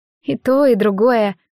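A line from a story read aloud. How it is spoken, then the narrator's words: Grumbling mutter. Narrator (Russian): буркнула Морет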